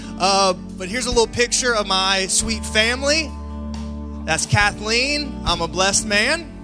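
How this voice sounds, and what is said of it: Slight Southern country accent. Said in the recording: “I live in Anderson, South Carolina, so I have a little bit of a country accent.”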